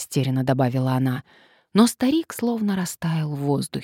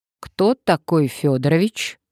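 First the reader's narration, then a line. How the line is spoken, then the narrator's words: Stern question. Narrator (Russian): строго спросила Надежда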